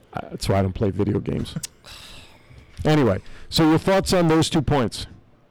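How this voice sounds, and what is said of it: New Jersey East Coast accent. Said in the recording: “Well, I'm from Jersey. ... It's my East Coast accent.”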